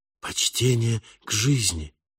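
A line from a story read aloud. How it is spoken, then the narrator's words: Young whisper aloud. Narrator (Russian): юный Ори прошептал вслух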